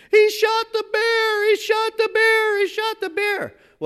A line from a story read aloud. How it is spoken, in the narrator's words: she's screaming